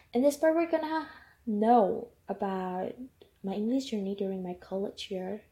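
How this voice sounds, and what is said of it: Non-native English accent. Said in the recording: “sorry about my accent.”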